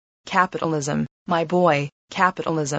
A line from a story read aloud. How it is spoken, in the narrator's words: the rheumatism would get into his joints, and then he would screw up his face and mutter